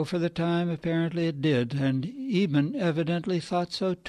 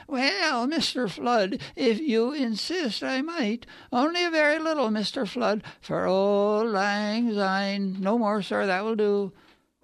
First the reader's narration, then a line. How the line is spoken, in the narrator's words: Convivially with an acquiescent quaver, said